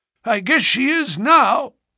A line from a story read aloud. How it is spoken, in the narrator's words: cried defiantly